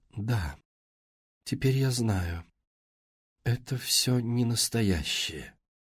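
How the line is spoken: Quiet, as if waking. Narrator (Russian): словно очнувшись от транса, она тихо сказала

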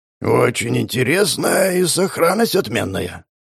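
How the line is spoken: Muttering. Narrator (Russian): пробормотал Бамер

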